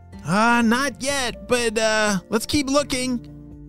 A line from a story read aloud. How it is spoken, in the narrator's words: shouted Anna back